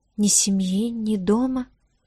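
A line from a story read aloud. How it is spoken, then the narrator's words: Very quiet. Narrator (Russian): повторила Диара тихо-тихо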